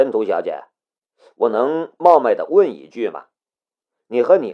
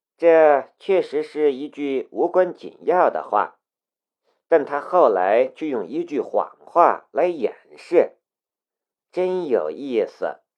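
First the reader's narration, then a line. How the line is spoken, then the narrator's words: Flat, indifferent. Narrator (Chinese): 申屠天音淡淡的道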